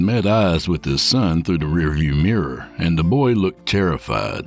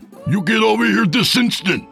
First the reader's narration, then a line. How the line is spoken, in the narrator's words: he screamed